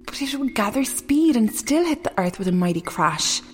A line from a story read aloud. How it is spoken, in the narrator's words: sighed another young woman